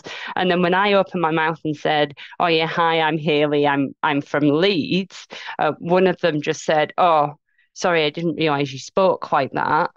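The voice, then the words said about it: Mixed Yorkshire and Scottish accent. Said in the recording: “my accent's very much evolved because I've lived in Scotland for nearly 15 years... So I now have a real hybrid mix of kind of English, Yorkshire, Scottish going on.”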